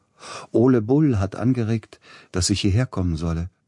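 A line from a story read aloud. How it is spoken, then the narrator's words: Plain. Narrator (German): sagte er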